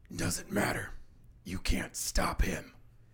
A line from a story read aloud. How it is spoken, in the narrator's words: he kind of snarls again and says